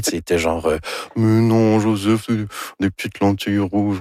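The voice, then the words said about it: Imitates another person's voice. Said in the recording (French): “Ça, c'est mon imitation de Anne Dorval. ... C'est très réussi, je trouve.”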